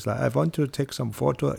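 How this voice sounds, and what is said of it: Imitated German accent. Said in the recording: “my German friend ... that's his accent”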